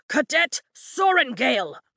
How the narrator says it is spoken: Markham yells

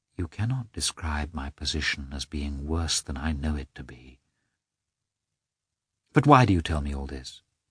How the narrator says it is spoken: She felt all the justice of his words and only said softly

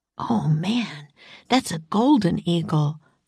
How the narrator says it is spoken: whispered Jack

